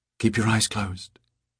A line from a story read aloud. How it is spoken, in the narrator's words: she whispered by his ear